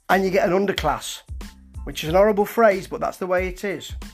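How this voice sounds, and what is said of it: Nottingham English accent. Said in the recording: “I'm talking in my Nottingham accent”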